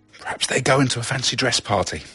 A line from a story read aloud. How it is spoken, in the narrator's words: Chand whispered